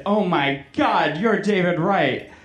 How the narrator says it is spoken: I let out with a fanboyish squeal

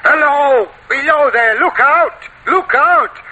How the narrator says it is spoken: The voice was hoarse with shouting, and it cried

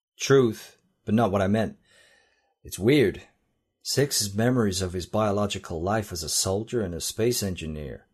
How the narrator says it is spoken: Trent said

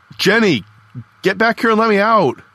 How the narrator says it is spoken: I yelled through the wire mesh window in the door

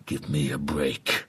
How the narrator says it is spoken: growls Bradley

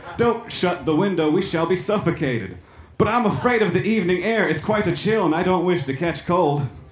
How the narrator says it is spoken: exclaimed Franklin

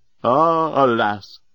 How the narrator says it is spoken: cried the great Leovinus

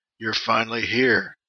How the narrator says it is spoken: he says

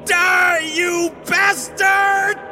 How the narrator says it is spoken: With one final scream of

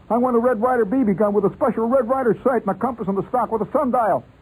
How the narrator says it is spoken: I shouted

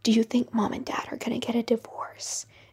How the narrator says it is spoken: Stella she whispered

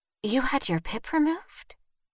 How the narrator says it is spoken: Vivian whispered

